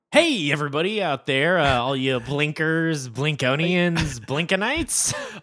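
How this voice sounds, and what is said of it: Announcer-style radio voice. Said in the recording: “Are you mimicking me going, hey everybody? ... my radio voice”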